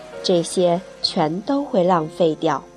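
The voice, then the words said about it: Rough, hoarse voice. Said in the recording (Chinese): “用粗哑的声音说道”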